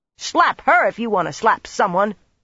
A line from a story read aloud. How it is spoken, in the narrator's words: Brianna shouted back so fiercely that spittle flew